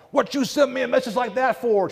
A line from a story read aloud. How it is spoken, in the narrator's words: yells to the sky